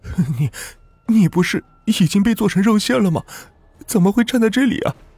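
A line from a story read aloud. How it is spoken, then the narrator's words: Trembling question. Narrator (Chinese): 左旭颤声的问道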